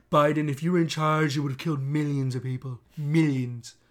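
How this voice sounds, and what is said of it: Imitates another person's voice. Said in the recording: “I've clearly been working on my impression. ... Decent.”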